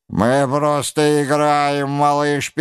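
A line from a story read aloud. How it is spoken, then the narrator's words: Mocking laughter. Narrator (Russian): передразнивая его, захохотали ребята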